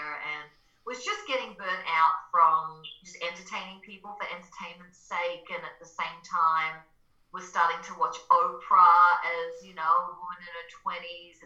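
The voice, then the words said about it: Mild Australian accent. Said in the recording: “I'm Australian, so that's my accent. It's a little bit less these days.”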